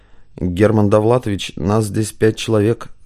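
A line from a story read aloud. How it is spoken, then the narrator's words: Plain. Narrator (Russian): сказал Баханов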